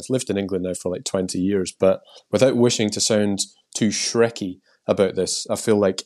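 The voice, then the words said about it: Scottish accent. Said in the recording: “I've still retained my Scottish accent somehow”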